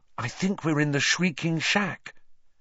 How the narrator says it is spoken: she whispered

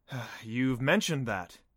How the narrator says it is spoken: sighed

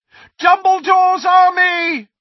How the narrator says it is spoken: he shouted

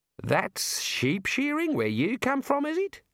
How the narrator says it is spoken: one of them said, in a stunned voice

